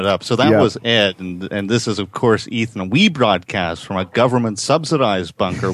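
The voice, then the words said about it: Canadian accent. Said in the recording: “you guys have enough of a Canadian accent without accentuating it.”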